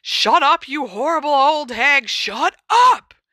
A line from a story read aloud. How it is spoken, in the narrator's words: he roared